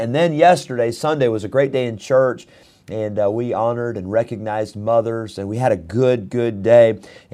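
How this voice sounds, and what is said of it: Impaired, recovering voice. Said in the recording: “Sorry for the way my voice sounds today. It actually sounds a little bit better now than it did last night, and a little bit better now than it did this morning, so hopefully it's coming back.”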